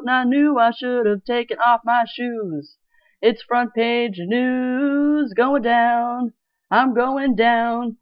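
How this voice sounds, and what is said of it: Sung imitation of another person's voice. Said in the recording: “my Mickey Dolenz impression.”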